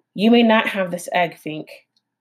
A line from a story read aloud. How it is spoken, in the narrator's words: the fox sighed